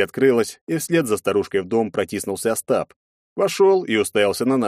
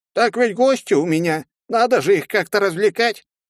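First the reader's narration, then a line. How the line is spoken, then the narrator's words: Cheerful reply with laughter. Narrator (Russian): ответила гоблинша и весело рассмеялась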